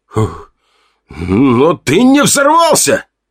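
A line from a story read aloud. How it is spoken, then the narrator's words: Almost shouting. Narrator (Russian): Он почти кричал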